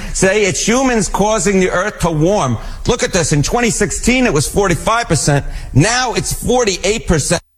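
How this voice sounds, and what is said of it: Exaggerated New York accent. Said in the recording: “all New York accent ... You're leaning into that ... Now I really am leaning into the, yes, New York accent.”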